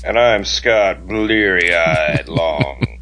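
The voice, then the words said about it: Raspy rhythm and blues DJ voice. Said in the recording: “my new rhythm and blues DJ voice ... catch a cold and get that really raspy voice”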